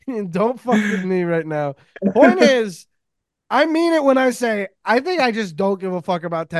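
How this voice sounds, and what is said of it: Usual voice. Nothing is said of it.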